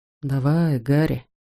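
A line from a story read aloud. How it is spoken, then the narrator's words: Whisper. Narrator (Russian): шепнул он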